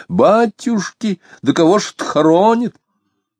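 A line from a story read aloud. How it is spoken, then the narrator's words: Loud astonished question. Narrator (Russian): Изумленно, громко спросила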